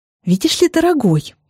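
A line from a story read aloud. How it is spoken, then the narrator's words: Rather irritated. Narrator (Russian): говорю я довольно раздраженно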